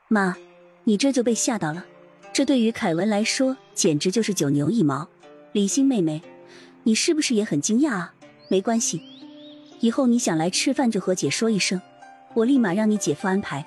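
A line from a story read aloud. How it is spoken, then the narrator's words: Calm, composed. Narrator (Chinese): 李玲 嘴上还是淡定的说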